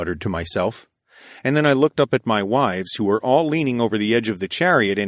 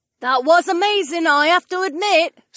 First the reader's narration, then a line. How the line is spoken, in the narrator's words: Sienna called out to me